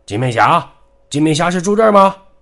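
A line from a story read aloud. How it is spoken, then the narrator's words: Loud shouting man. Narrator (Chinese): 那个壮汉在大声叫着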